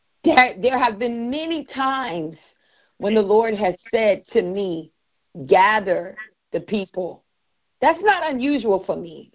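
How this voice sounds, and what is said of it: Emotional voice. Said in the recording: “I don't know why I'm getting emotional.”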